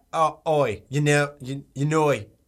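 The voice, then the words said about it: Put-on Australian accent. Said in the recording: “Australian ... Do a Valley Girl, but also an Australian accent at the same time.”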